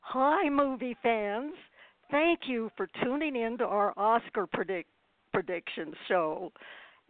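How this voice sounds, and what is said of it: Voice barely working, strained. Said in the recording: “my voice isn't working today”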